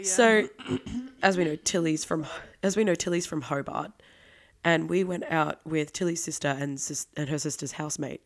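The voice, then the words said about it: Voice audibly not in good shape. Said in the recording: “As you can hear in my voice, I'm not in the best.”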